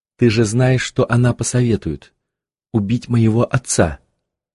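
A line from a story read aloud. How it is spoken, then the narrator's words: Quiet. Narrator (Russian): тихо сказал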